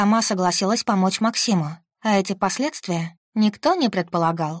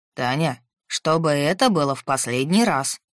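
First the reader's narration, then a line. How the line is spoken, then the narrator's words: Stern. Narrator (Russian): строго сказал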